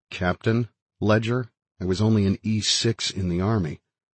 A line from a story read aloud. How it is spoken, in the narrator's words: for a quiet comment, I murmured